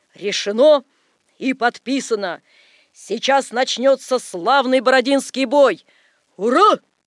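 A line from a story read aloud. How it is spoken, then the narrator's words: Loud barked shout. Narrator (Russian): гаркнули маршалы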